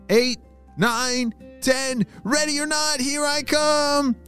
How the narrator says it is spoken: shouted Micah

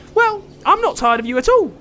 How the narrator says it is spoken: chirped Otis

